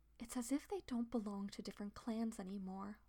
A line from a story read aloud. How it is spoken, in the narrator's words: Leafpaw whispers to Squirrelpaw